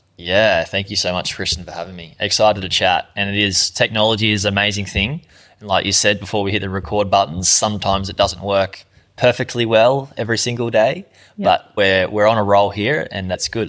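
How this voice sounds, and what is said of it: Australian accent. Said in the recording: “I can tell by the accent you're somewhere down under”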